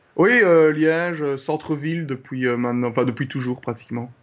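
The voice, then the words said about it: Slight Belgian French accent. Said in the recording (French): “tu as un petit accent euh, et, tu viens de Belgique”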